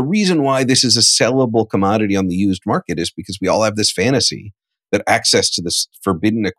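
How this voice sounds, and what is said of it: Usual voice. Nothing is said of it.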